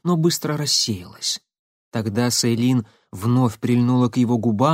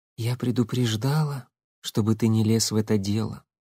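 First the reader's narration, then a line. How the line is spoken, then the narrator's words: Calm. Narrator (Russian): спокойно сказала она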